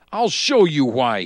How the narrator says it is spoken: shouts

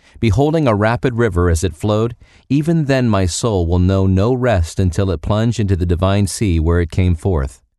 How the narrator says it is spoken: cried out

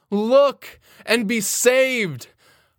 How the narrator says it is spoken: I hear a shout

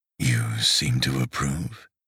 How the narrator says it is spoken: murmured

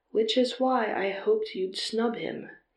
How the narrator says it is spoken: he remarked calmly

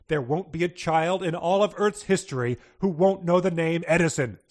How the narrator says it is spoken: cried

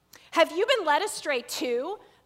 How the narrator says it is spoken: the Pharisees mocked

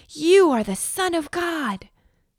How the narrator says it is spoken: The demons shouted

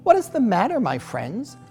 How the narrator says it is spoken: She asked kindly

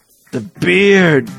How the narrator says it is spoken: Jesus moaned quietly

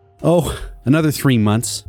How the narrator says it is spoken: The elf laughs

